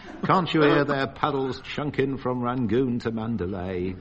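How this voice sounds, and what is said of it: Rudyard Kipling accent. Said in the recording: “my Rudyard Kipling accent”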